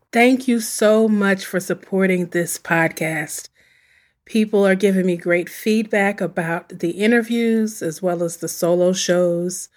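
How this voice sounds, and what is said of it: Weakened voice still recovering, coughs. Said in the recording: “If you catch my little cough, don't worry about it. I'm getting over a flu, I think. So my voice is slowly coming back”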